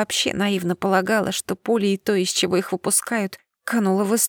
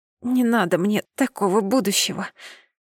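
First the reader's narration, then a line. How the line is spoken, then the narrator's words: Rasping hiss in pain. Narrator (Russian): прохрипела, шипя от боли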